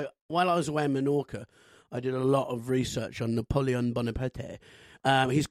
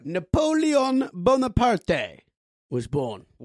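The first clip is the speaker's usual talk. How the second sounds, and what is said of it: Put-on Corsican French-Italian accent. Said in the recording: “That is a French, ... Italian, Corsican ... accent ... It's half Italian, half French, so I just put them together”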